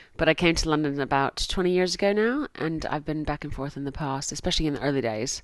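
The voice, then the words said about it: Mid-Atlantic American accent. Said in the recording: “my accent, which is now somewhere middle of the Atlantic, I'm originally from America”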